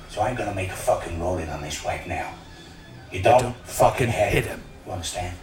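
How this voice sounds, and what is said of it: Put-on Boston accent. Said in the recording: “What accent is ... supposed to be doing here? ... Boston? ... Boston, Massachusetts.”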